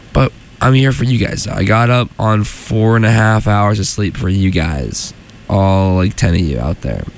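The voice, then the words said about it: Congested, labored, stuffy-nosed voice. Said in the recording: “I'm feeling a bit ill. You can probably maybe hear it in my voice. I'm very labored in my talking right now. My nose is very stuffy.”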